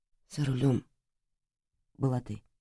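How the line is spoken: Whisper. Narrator (Russian): прошептал он

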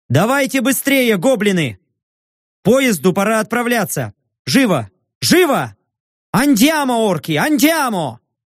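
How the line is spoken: Shouted. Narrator (Russian): крикнул

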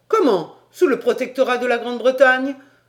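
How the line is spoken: Exclaimed. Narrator (French): s'écria Paganel

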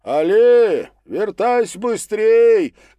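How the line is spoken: Shouting after someone. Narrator (Russian): кричали ему вслед

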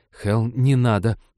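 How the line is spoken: Pleading. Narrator (Russian): взмолилась Ивета

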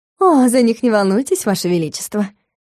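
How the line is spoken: Snide singsong. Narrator (Russian): ехидно пропела Лиссандра

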